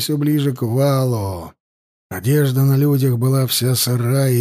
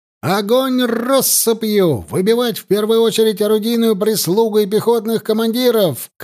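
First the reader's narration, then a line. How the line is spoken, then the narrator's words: Shout. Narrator (Russian): крикнул Алексей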